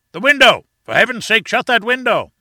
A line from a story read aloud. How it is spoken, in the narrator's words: roared the professor from the platform, in an agony of apprehension